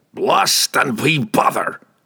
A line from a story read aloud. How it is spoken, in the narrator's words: Brunner roared